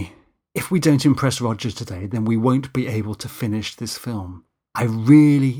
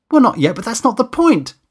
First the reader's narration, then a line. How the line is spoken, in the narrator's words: Danny shouted back